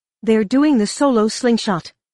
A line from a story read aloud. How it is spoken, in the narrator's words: Lieutenant Cell exclaimed